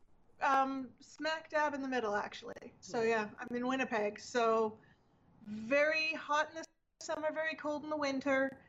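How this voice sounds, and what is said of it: Canadian accent. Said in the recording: “as you can probably tell by the accent, ... from Canada”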